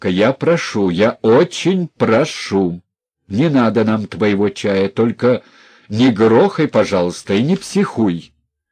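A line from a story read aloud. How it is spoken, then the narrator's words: Loud. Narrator (Russian): сказал громко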